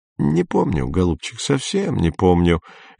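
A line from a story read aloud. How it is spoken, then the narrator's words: Cheerful old woman. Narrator (Russian): весело откликнулась престарелая Матильда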